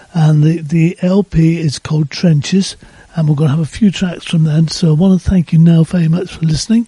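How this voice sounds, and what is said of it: Strained, failing voice. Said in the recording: “My voice is going as well.”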